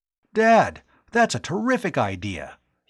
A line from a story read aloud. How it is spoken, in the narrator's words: he exclaimed